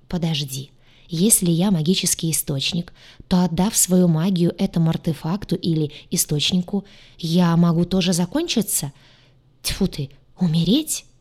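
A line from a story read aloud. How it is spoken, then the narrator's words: Terrified whisper. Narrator (Russian): перепуганно прошептала она, осознавая весь масштаб опасности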